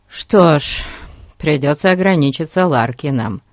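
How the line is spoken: Sighing. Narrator (Russian): вздохнул Фати

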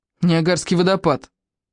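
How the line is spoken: Snapped. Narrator (Russian): огрызнулась Наташа

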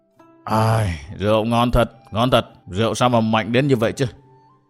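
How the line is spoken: Old man mumbling, yawning. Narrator (Vietnamese): lão già ngáp mấy tiếng ..., mồm thì lẩm bẩm nói

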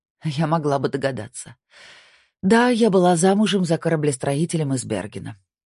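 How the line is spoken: Sighing. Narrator (Russian): вздохнула Кора

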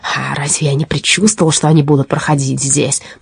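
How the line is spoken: Muttered. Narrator (Russian): пробормотал разбойник Хотсенплотс

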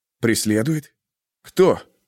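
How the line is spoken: Forced, strained words. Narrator (Russian): выдавил Феликс

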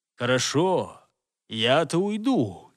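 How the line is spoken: Quiet but menacing. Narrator (Russian): тихо, но грозно промолвил он

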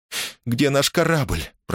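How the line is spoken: Faltering babble. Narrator (Russian): пролепетала она

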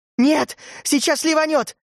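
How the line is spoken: Screaming. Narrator (Russian): завопила Урсула

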